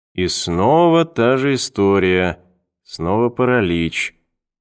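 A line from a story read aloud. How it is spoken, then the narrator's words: Thoughtful drawl. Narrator (Russian): задумчиво протянул Перри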